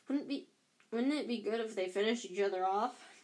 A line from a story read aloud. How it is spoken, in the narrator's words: Ron muttered into Harry's ear